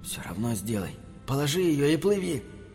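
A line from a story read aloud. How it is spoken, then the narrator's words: Inner whisper. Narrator (Russian): его сознание шепнуло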